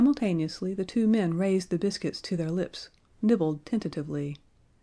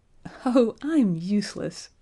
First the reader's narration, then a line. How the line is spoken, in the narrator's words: she cried, laughing